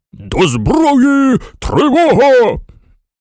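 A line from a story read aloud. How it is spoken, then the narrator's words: Frantic shout. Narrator (Ukrainian): наш генерал крикнув, мов навіжений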